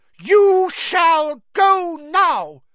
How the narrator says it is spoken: he said fiercely

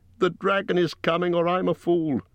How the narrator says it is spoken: he cried

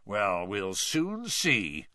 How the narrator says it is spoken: growled Mr

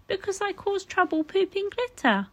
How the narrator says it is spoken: Rodney cried

